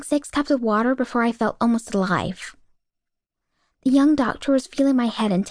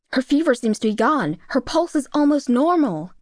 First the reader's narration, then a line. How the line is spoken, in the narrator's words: the doctor said in an excited voice